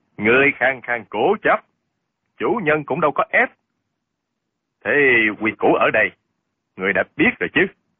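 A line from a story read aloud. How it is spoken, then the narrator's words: Cold male voice. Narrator (Vietnamese): Giọng một hán tử lạnh lùng nói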